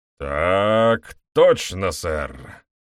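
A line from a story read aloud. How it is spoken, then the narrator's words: Drawled with nasty smirk. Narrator (Russian): Протянул сержант с недоброй ухмылкой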